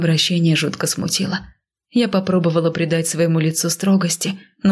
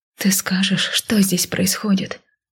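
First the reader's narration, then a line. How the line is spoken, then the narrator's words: Silently mouthed whisper. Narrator (Russian): шепнула вопрос одними губами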